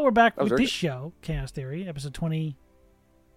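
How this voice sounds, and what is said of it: Usual voice. Nothing is said of it.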